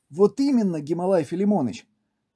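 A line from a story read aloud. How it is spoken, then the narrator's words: Exclaiming. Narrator (Russian): воскликнул Зай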